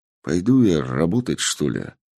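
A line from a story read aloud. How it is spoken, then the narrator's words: Grumbling. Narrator (Russian): Проворчал Сергей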